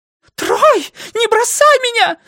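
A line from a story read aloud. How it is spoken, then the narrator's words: Shrieked. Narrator (Russian): завизжала его дама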